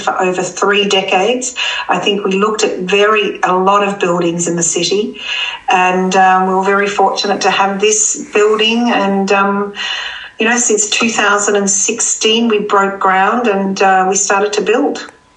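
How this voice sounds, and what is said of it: Australian accent. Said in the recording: “You haven't yet acquired much of a Hyde Park accent ... I am very happy to be Australian, and I don't think one can change one's accent”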